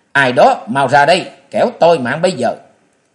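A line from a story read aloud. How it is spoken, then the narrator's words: Young woman shouting. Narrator (Vietnamese): Thiếu nữ vừa quát lên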